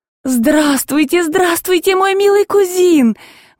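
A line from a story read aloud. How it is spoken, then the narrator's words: Drawn-out tearful exclamation. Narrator (Russian): воскликнула она растянутым и почти слезливым голосом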